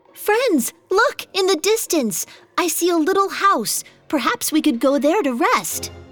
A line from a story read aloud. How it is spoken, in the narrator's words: He yelled down to them